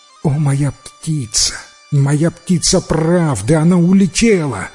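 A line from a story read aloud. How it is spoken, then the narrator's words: Exclamation. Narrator (Russian): воскликнул царевич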